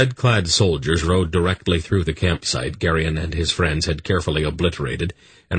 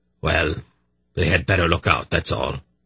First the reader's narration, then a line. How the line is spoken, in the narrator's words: he muttered again